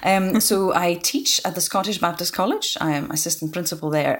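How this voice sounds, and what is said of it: Mixed Lithuanian and Scottish accent. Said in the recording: “my Scottish twang ... a mixture of Lithuanian and Scottish accent”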